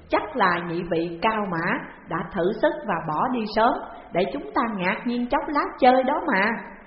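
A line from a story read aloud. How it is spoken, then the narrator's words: Smiling, amused. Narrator (Vietnamese): Lôi Đại Bàng mỉm cười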